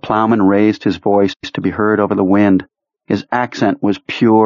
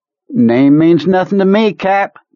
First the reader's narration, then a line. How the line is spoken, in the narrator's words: Kurtz said in the same bright tone